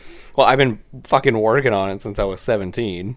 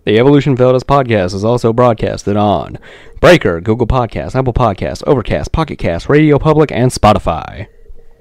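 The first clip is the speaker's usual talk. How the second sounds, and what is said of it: Smooth announcer voice. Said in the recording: “this smooth, sexy announcer voice ... You do have a better voice than me.”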